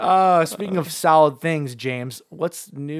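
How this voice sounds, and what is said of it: Usual voice. Nothing is said of it.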